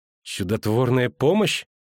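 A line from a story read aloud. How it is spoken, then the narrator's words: Grumbling. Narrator (Russian): проворчала Цири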